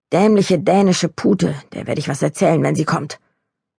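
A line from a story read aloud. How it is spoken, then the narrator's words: Low growl. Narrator (German): knurrte sie halblaut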